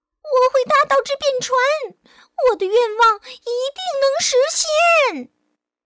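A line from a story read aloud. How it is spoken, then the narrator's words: Sighing, then loud shout. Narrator (Chinese): 唉，小海螺却直叹气，最后忍不住大声喊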